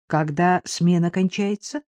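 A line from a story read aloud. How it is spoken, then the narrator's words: Plain. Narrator (Russian): спросил Виктор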